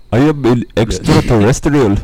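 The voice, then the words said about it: Alien voice slipping into Indian accent. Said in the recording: “your best alien impression ... Oh, sorry, I got Indian.”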